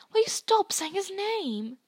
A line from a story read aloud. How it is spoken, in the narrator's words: Ron hissed